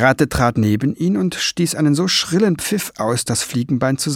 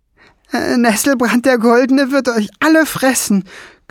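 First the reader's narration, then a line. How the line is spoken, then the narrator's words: Shrieked. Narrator (German): kreischte Kiesbart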